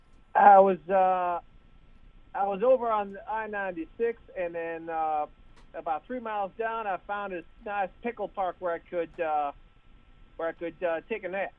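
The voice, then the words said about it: Put-on Southern drawl. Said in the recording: “a Southern drawl”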